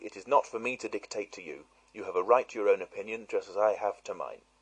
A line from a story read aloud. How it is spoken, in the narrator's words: I said coldly